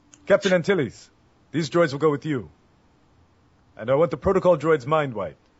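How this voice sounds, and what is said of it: Imitates another person's voice. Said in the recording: “my best Jimmy Smits impression.”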